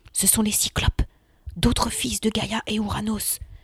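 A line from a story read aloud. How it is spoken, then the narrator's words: Murmured. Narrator (French): murmura Pausania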